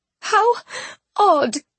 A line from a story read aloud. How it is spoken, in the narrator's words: she mumbled through her sobs